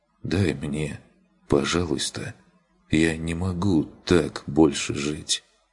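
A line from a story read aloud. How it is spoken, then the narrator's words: Hopeless exhausted whisper. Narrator (Russian): Едва слышный измученный голос безнадежно прошептал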